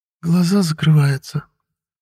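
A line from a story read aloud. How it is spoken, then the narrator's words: Sleepy, slightly guilty. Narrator (Russian): сонно и чуть виновато произнесла Лилия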